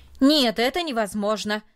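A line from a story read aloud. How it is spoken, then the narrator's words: Loud and firm. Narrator (Russian): сказал он, наконец, громко и твердо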